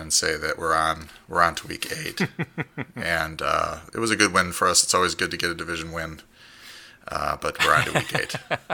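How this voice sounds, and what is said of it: Imitates another person's voice. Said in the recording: “my best Bill Belichick impersonation”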